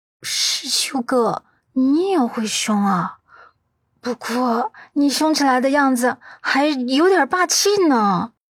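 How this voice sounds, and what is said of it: Speaking in a small, quiet voice. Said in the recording (Chinese): “小小声道”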